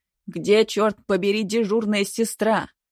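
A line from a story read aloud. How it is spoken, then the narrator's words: Roaring. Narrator (Russian): взревел Лазарь Петрович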